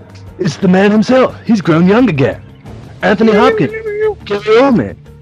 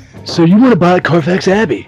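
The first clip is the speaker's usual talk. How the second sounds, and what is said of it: Surfer-style English accent imitation. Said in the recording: “His surfer English accent ... I hear surfer vibe”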